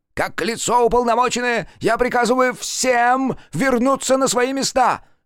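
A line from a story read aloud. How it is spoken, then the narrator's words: Unpleasant, ominous shout. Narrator (Russian): Выкрикнул он, и было в его противном голосе что-то такое, отчего все замерли и почувствовали неминуемую беду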